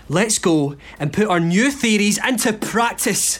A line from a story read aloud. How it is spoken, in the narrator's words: Wood shouted